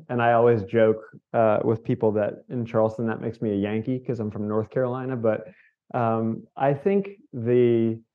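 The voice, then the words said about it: Northern California surf accent. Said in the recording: “I don't sound like I'm Southern so much anymore ... my accent has migrated from Charleston accent to surf California, Northern California surf bum accent. So you'll hear that as we talk.”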